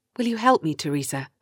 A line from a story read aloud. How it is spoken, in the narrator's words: ask quietly